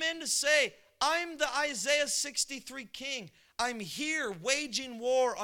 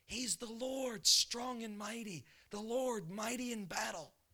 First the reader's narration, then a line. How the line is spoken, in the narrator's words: the Holy Spirit would whisper